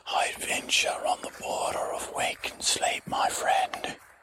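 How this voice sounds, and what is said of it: Whispering. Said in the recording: “Sir, why are you whispering?”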